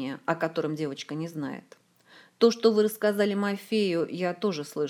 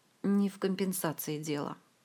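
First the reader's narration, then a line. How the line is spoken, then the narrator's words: Sigh. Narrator (Russian): вздохнул маг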